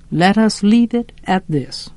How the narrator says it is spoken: said Atticus dryly

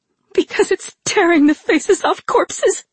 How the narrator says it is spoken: said in a wavering voice

